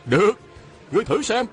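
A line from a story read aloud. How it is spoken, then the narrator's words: Shouting. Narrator (Vietnamese): Phan Tú Đạt la lên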